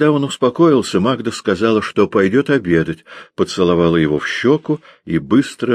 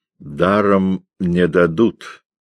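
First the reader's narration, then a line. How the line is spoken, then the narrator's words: Lazy, through clenched teeth. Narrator (Russian): лениво процедил Горн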